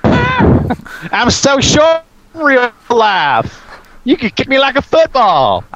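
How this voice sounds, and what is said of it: Imitates another person's voice, fake southern accent. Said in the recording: “Does that fake southern accent”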